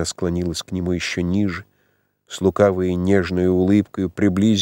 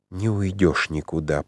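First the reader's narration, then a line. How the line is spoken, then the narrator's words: Passionate whisper. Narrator (Russian): прошептала страстным шепотом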